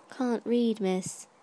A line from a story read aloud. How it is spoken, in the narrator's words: said mournfully